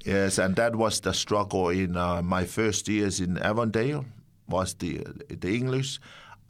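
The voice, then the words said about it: Non-native English accent. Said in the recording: “I can understand you perfectly, and I'm not good with accents normally.”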